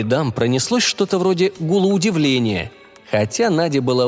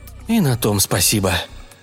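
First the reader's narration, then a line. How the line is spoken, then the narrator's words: Muttering. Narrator (Russian): пробормотала Надя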